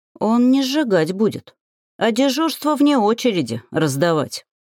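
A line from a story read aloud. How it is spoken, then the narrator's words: Gloomy reply. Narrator (Russian): мрачно отозвалась я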